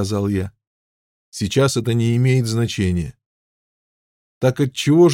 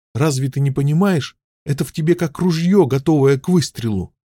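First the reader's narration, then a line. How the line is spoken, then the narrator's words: Desperate exclamation. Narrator (Russian): отчаянно воскликнула Лиза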